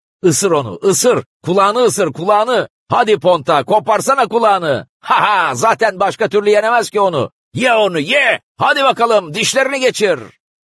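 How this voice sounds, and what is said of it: Cheerful shouting. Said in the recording (Turkish): “neşeli bağırmalar”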